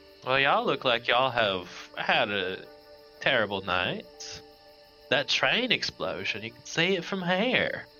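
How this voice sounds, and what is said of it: Put-on Texan Southern accent. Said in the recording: “when did we get into Texas? ... we're sticking with this”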